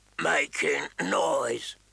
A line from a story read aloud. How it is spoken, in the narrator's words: Maud growled, with blood in his eyes